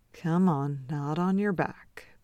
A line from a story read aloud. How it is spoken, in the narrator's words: Beard murmurs